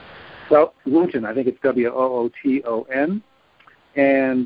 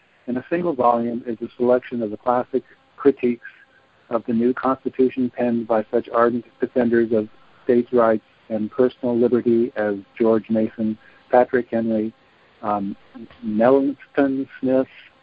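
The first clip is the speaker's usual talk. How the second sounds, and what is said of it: Reading very fast. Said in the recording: “I'll read it really quickly”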